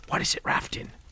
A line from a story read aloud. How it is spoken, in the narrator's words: Colin whispered tersely